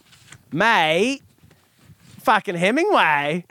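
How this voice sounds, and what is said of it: Put-on accent. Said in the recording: “Will you do it with an accent?”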